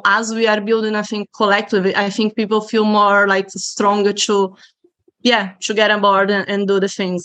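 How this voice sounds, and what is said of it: Non-local foreign accent. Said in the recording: “everyone can hear from my accent, I'm not originally from Ballymun”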